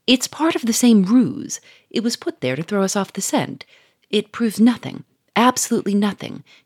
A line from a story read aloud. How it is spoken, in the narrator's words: he said scornfully